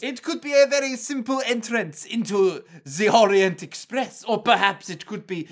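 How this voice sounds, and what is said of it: Attempted French accent, Poirot-style. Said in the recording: “this your Poirot? ... I am trying very hard to make a France accent.”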